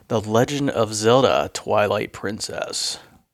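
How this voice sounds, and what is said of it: Announcer-style radio voice. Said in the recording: “That was my radio voice.”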